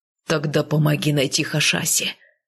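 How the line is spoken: Rough bark. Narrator (Russian): грубо рявкнул Кайл

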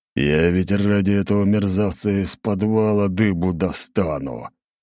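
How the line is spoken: Intense words through gritted teeth. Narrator (Russian): Цедил он сквозь зубы, и от каждого его слова воздух, казалось, вибрировал

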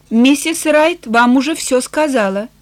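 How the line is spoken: Calm reply. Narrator (Russian): Бентон спокойно ответил

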